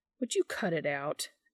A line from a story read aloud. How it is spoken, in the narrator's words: Dean scoffs